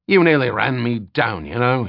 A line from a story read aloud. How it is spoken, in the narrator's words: he snapped